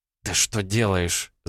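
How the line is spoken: Hissing. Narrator (Russian): зашипела Элли

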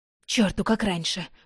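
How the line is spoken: Grumbled. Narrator (Russian): буркнула

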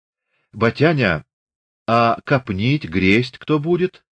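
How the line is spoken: Timid question. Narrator (Russian): робко спросила Дуняшка

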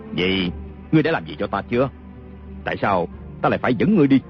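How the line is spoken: Sneering. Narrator (Vietnamese): Kiều Phong cười khẩy

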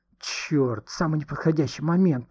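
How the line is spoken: Grumbled. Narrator (Russian): проворчал тот

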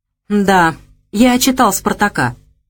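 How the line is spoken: Snort. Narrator (Russian): хмыкнул Леша Шкаф

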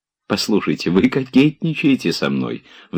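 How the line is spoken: Sudden cheerful. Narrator (Russian): вдруг весело сказала

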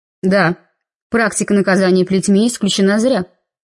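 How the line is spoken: Cold reply. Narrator (Russian): холодно ответила Анна

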